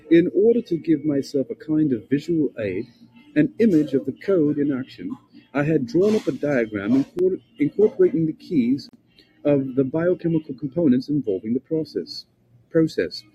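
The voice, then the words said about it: Put-on British accent. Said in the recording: “British researcher, good, I gotta give him this accent”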